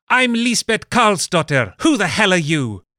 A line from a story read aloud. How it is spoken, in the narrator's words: In the streets and witness stands of Stockholm, she could be heard to shout